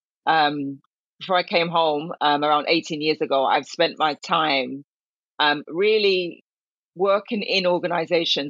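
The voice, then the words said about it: English accent. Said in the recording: “note the English accent for the Jamaican lady”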